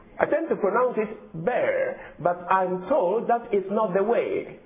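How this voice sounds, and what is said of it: African accent. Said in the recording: “I have an African accent.”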